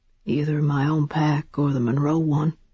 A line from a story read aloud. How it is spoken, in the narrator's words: he said grimly